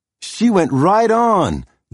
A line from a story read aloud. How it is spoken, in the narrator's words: Lydia cried